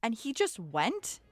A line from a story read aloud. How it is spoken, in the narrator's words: shouted